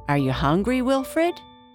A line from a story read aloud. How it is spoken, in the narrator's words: Gianna asked